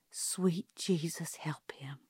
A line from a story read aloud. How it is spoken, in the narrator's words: Calpurnia murmured